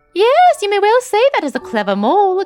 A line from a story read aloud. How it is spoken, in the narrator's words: exclaimed the field mouse